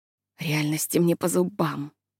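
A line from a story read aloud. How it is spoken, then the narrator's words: Muttering. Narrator (Russian): она бормотала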